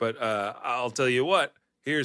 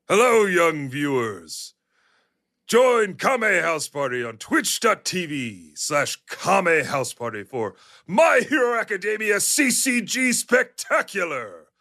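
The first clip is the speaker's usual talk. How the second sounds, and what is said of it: All Might character voice impression. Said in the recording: “my all might impression”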